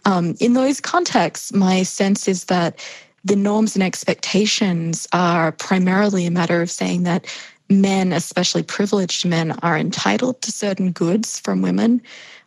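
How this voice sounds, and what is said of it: Australian accent, somewhat hybrid. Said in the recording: “Australia, my home country, as I hope my accent still makes relatively clear, although I know it's a funny hybrid at this point”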